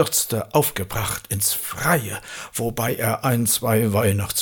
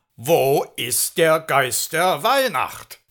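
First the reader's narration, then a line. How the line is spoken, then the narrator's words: Thundering shout. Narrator (German): Santa Claus rief er donnernd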